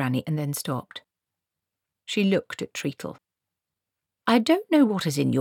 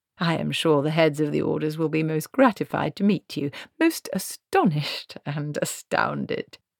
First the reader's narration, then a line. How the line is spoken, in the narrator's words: he said, and gave a little laugh